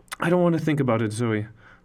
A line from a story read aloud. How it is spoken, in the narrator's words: I replied